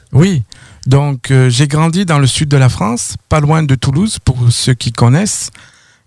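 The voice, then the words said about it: Slight French accent. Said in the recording (French): “vous avez un petit accent, vous provenez de la France?”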